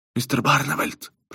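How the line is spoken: Whisper. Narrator (Russian): прошептал Берти

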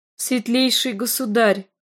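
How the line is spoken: Soft, slightly trembling. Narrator (Russian): проговорила она негромким, чуть дрогнувшим голосом

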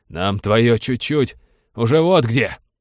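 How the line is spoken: Barking. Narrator (Russian): рявкнул замыкающий

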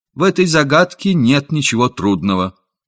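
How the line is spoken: Calm and firm child. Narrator (Russian): Мальчик тотчас же спокойно и твердо сказал

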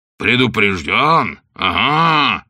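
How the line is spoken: Growling bishop. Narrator (Russian): зарычал бишоп

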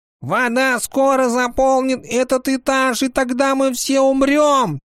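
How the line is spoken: Shouting. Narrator (Russian): прокричал Тиарион

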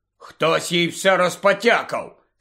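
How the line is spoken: Angry bark. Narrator (Ukrainian): сердито гаркнув Рон

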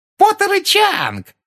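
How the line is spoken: Yelling. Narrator (Russian): завопила Пенси

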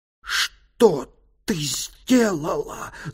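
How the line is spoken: Furious spitting hiss. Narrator (Russian): зашипела госпожа Самела, брызжа слюной от ярости

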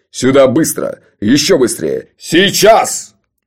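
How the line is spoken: Very loud yelling. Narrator (Russian): Джуфин орал так громко

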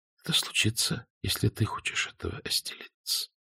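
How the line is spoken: Whisper. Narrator (Russian): шепнула Клаудия

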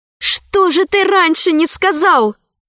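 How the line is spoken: Exclaiming. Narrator (Russian): воскликнула Алиса

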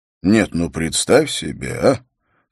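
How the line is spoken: Quiet, disgusted. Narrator (Russian): с отвращением тихо произнес Холт

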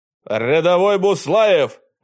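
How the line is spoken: Barked, warrior. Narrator (Russian): гаркнул богатырь

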